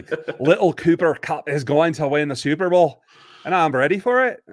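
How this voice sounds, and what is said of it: Put-on Scottish accent. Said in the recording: “sliding into a Scottish accent.”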